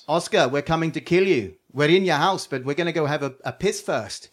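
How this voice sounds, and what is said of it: Put-on South African accent. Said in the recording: “That is an the excellent worst defense South ever. African accent ... I can do the voices”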